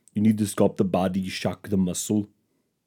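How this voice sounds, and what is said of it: Arnold Schwarzenegger impression. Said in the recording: “That's a pretty good Arnold Schwarzenegger impression”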